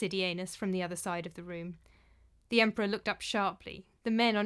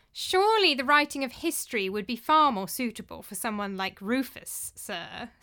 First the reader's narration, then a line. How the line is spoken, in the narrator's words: sneered Nasidianus